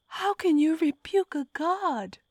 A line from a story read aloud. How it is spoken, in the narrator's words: I howled, clutching my torn fingers over my aching belly